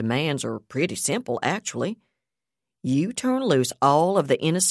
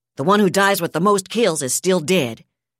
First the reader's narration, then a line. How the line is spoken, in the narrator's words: Yardley shot back